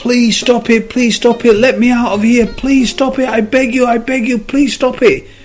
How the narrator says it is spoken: The cup started screaming

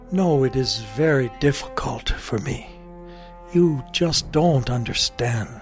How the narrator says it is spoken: The king sadly said

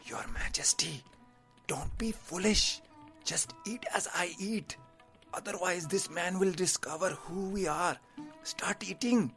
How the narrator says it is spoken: The advisor whispered to him

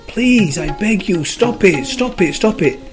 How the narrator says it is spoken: every time he squashed the clay, The clay screamed

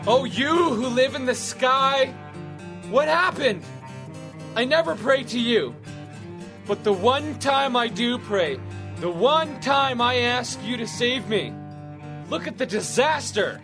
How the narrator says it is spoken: He shouted

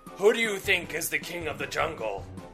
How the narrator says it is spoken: The lion roared

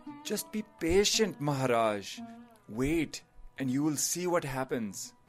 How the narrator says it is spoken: The advisor sighed and said

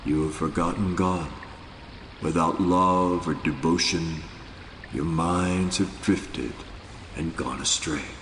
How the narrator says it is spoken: With chilling seriousness, Nanak said in a quietly penetrating voice

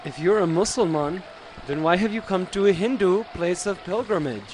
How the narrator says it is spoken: asked another

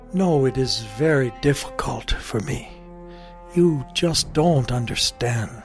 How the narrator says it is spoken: The king sadly shook his head and said

